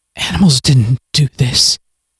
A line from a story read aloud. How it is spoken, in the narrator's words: Miles whispered